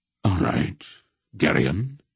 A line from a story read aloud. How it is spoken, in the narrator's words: he said in a strangely quiet voice